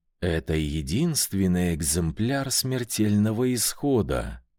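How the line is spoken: Languid, sultry voice. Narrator (Russian): томным голосом сказала Амиса

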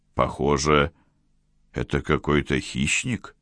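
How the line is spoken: Muttering. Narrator (Russian): пробормотал Тири

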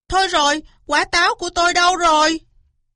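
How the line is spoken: Loud alarmed shout. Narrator (Vietnamese): Cáo hét toáng lên

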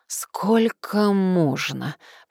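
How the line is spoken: Moaning. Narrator (Russian): простонала

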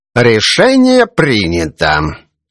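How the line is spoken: Solemn announcement. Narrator (Russian): торжественно возвестил судья

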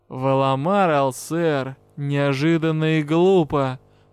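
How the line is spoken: Mocking, menacing drawl. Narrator (Russian): Насмешливо и в то же время как-то угрожающе протянул магистр

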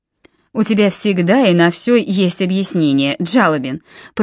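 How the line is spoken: Grumble. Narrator (Russian): проворчал Нимрод

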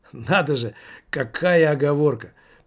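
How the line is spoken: Laughing. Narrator (Russian): продолжал он, смеясь

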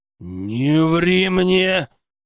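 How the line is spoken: Growled. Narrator (Russian): зарычал я

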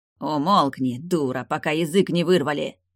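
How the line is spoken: Snarl. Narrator (Russian): рыкнул Веденей

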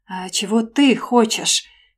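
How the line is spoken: Growl. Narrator (Russian): прорычал он

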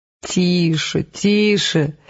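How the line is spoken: Creaky laughter. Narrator (Russian): скрипуче смеялся Эд

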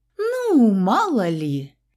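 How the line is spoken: Playful drawl. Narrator (Russian): игриво протянула я

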